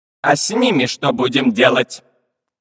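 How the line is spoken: Menacing question. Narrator (Russian): грозно спросил помощник капитана

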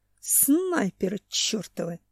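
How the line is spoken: Hiss. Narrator (Russian): прошипел Семен

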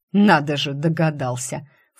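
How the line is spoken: Snort. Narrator (Russian): фыркнул Эриан

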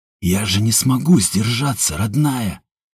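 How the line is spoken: Muttering. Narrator (Russian): бормотал Степан

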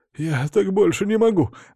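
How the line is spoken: Pleading. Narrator (Russian): взмолился Островский

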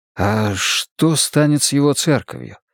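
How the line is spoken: Quiet question. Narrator (Russian): тихонько спросил я у Инеи

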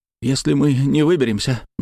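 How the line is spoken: Trembling voice. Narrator (Russian): начал он дрожащим голосом

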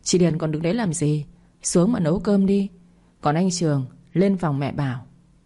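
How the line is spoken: Weary sighing speech. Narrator (Vietnamese): Mẹ chồng tôi vừa nói vừa thở dài thườn thượt, sau đó lại lên tiếng

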